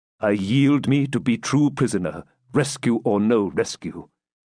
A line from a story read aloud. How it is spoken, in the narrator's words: answered the Norman, exchanging his tone of stern and determined obstinacy for one of deep, though sullen, submission